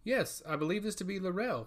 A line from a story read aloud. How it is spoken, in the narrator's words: she answered